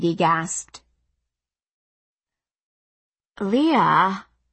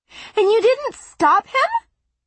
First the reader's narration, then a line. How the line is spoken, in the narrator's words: Maggie shrieked